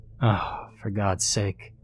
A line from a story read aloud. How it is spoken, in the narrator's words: I said, sighing